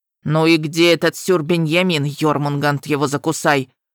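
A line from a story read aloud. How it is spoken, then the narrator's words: Grumbling dragon. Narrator (Russian): проворчал черный дракон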